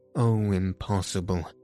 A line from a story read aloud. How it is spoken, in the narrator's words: moaned Raoul